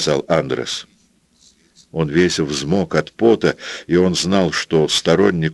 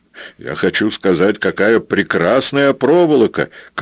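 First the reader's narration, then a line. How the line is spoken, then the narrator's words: Shouting. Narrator (Russian): крикнул Андрес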